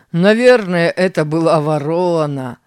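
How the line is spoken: Laughing. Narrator (Russian): рассмеялся Тим

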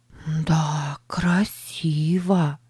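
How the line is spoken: Whisper. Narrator (Russian): прошептала она

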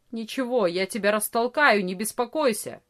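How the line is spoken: Angry grumble. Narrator (Russian): сердито проворчал Ария

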